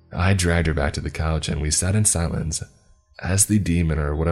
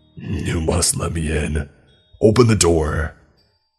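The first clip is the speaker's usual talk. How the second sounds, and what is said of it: Demonic character voice. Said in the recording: “In that same demonic voice that made my blood freeze”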